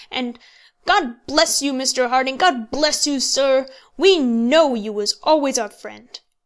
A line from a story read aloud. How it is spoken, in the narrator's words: was exclaimed by enough of the men to make it appear that the sentiment was general